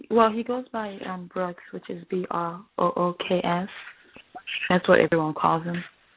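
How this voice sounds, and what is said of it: Speaker with own accent. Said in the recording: “I have an accent, so I guess it sounds funny when I say it.”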